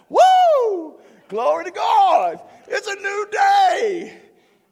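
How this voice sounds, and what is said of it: Joyful shouting. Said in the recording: “I'm shouting.”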